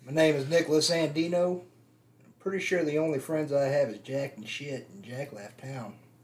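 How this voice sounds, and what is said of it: Southern United States accent. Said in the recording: “Southern United States accent ... Northern Alabama”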